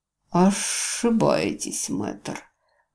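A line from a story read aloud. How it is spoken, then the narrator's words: Muffled laugh. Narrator (Russian): глухо рассмеялся лорд-канцлер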